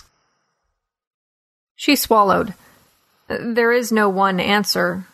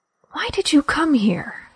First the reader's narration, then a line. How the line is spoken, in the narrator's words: She whispered